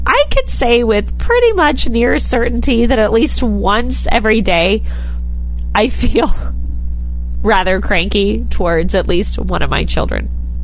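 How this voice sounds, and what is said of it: Scratchy, stuffy voice from cold. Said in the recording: “my, like, scratchy, stuffy radio voice persona today. I have a cold”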